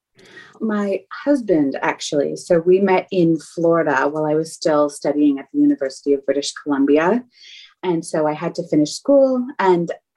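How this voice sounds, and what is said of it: Canadian accent. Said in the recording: “I can hear my Canadian accent”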